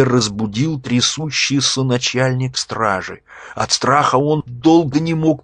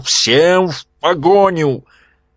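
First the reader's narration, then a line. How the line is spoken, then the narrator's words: Shouting. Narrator (Russian): Князь закричал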